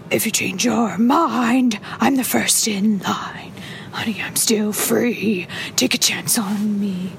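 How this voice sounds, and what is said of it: Sings in a Snoke character voice. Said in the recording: “my Snoke impression singing one of his favorite ABBA songs ... I know, it's pretty good.”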